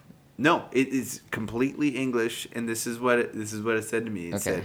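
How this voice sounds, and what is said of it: Usual voice. Nothing is said of it.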